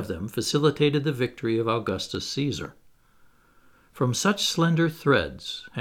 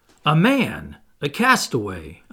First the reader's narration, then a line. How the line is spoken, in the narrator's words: I exclaimed